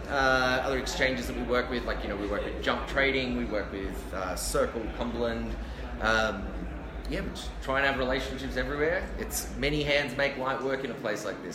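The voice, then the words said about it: Smooth, non-abrasive accent. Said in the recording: “with that accent, everything sounds a little bit smoother and less abrasive.”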